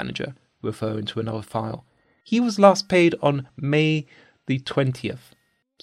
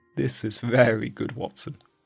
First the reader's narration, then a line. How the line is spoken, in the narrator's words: he chuckled